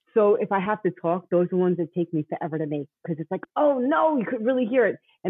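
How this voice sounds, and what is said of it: Thick New York accent. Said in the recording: “I have this really thick New York accent”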